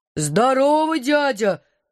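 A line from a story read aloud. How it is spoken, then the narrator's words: Booming bass voice. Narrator (Russian): прогремел он неожиданным для его хлипкого тела басом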